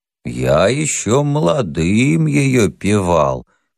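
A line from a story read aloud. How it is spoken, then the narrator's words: Old toothless mumbling confirmation. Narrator (Russian): подтвердил седой Кузьмич, чуть не столетний, беззубый и шамкающий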